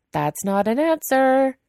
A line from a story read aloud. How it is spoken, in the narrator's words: Weying yells after him